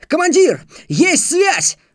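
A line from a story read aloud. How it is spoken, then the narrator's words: Sudden yell. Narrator (Russian): вдруг заорал помощник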